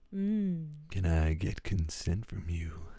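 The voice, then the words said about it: Put-on sexy voice. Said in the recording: “you can put a sexy voice on ... Yeah, that was good.”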